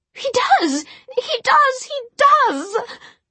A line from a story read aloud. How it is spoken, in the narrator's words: Jessamine shrieked